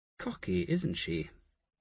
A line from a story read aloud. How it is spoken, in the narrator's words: Asher murmured